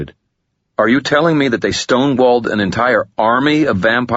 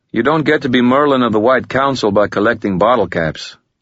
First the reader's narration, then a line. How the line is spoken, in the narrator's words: Ramirez said, his voice dry